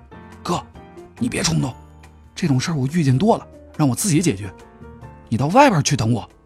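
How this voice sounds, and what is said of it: Quiet, hushed speech. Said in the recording (Chinese): “小声的对我说”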